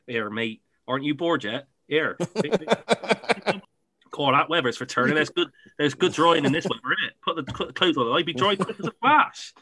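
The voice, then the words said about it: Rich put-on Gloucester accent. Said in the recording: “a really rich Gloucester accent”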